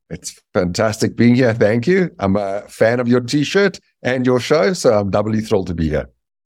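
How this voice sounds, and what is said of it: Noticeable foreign accent. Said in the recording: “your accent alone tells us something”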